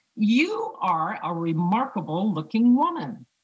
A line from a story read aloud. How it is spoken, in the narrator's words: One man with a white goatee and an even whiter hat looked at her from across the bar, caught her eye and shouted